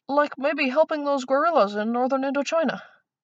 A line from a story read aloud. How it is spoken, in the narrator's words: Jules had a moment's dizzying cleverness and blurted